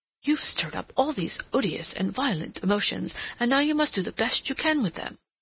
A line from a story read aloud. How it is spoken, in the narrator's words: He very nearly exclaimed aloud